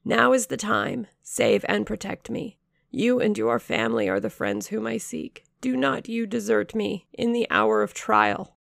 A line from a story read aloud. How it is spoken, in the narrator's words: I cried